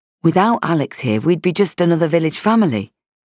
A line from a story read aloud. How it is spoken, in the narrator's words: he said in a placatory tone